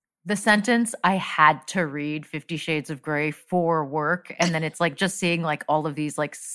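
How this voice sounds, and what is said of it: Usual voice. Nothing is said of it.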